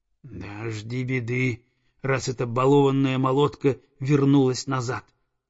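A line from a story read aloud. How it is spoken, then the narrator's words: Spiteful hiss. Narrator (Russian): злобно прошипела прекраснокрылая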